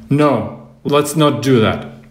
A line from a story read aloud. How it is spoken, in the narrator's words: She stopped smiling and said firmly